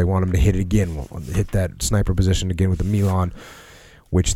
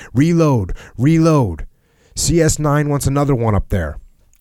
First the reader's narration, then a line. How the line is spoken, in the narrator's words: Captain Mason shouted over from behind us